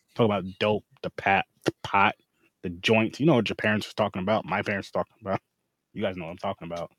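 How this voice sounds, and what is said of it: Put-on Black American accent. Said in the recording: “that's what a white guy who's trying to sound like a black guy sounds like ... Don't do that voice, man.”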